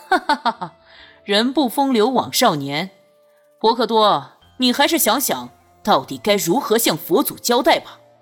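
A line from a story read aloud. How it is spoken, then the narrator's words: Loud laughter. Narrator (Chinese): 朱鱼大笑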